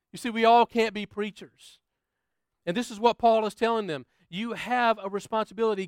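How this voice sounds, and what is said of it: American accent. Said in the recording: “I'm from the States, if you can't tell from my accent.”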